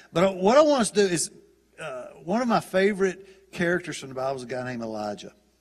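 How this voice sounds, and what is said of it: Southern American English accent. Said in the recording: “It's the southern dialect of English.”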